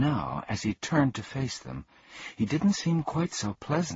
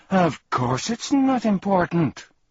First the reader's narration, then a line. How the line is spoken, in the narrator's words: snarled angrily